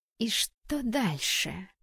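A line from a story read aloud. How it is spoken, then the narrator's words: Hissing. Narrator (Russian): прошипела она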